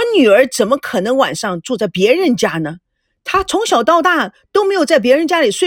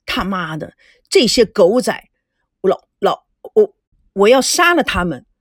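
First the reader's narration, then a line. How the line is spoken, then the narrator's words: Angry. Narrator (Chinese): 孙振愤怒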